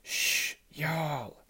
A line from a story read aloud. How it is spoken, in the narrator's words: whispered, but a small smile